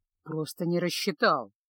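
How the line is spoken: Muttered under breath. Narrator (Russian): пробурчал чародей себе под нос

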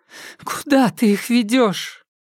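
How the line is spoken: Frightened, tearful question. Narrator (Russian): Она испуганно помолчала, утирая слезы, затем спросила

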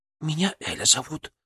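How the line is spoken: Whispered. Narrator (Russian): шепнула соседка

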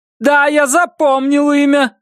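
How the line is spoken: Yelling into phone. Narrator (Russian): орал в трубку Джордж Т

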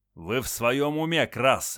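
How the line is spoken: Bark. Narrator (Russian): рявкнул Севастьянов

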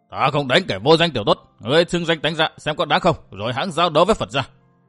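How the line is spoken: Resentful loud shout. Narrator (Vietnamese): Hải Hận Hoạt Phật không biết bài bác ra sao, đành hậm hực quát lớn

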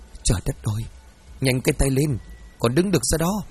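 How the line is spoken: Hissing softly. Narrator (Vietnamese): rít lên khe khẽ

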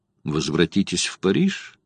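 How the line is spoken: Calm. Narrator (Russian): спокойно сказал Марк Гирланд

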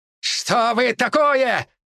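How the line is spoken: Monster shouting. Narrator (Russian): выкрикнул чернолицый монстр

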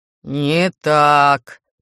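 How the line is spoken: Booming rumble. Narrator (Russian): прогромыхал Ждан

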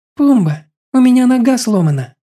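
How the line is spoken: Sigh. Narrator (Russian): Вздохнула Кали

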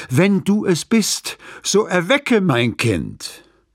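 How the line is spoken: Pleading. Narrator (German): Flehend

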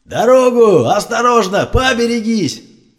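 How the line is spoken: Yelling while running. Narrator (Russian): орал он на бегу

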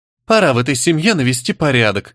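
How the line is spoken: Squeaky child's voice. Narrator (Russian): пропищала сопля

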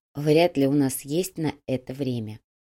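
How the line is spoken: Soft. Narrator (Russian): мягко произнесла Го

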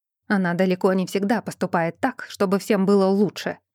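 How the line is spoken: Shouting. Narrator (Russian): закричал тогда Стивен

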